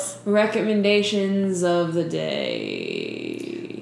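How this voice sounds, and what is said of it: Sung imitation of a singer. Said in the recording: “If you sing it, it's way more fun. ... my Stevie Nicks impersonation.”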